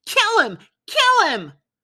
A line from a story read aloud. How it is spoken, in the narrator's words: Sammy screamed